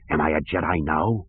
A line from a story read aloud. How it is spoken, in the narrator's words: Ganterus asked in a husky voice